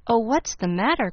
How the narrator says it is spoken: cried Daisy anxiously

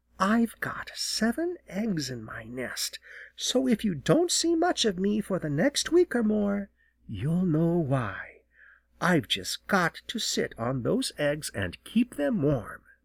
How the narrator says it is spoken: she whispered

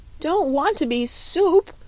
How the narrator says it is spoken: wailed Button-Bright again

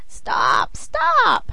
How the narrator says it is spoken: cried she, pretending to be smothered

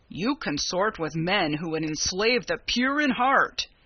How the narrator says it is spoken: he rumbled

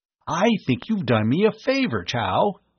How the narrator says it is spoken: he exclaimed

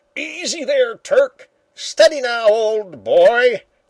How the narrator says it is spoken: the old man shouted to himself, and laughed

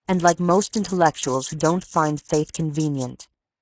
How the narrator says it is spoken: continued coldly

